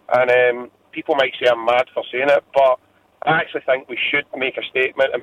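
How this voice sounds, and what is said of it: Emotional, strained voice. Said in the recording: “You can probably hear the emotion in my voice.”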